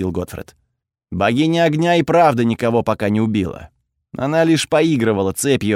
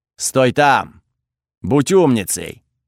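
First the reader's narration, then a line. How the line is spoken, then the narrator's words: Goddess barking. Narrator (Russian): рявкнула богиня огня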